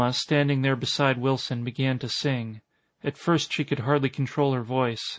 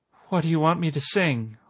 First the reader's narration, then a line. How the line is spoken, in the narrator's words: Alma asked in a trembling voice